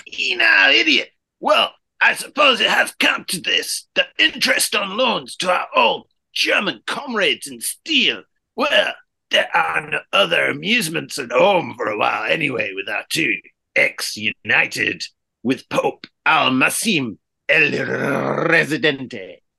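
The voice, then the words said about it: Put-on accent that drifts. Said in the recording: “I had some accent drift in that... Got a little bit Python”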